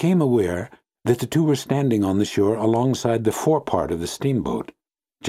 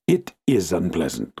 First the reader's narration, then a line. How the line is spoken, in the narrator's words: grunted the uncle